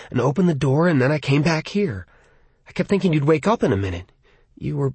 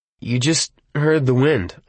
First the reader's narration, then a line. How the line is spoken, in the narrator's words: I said uneasily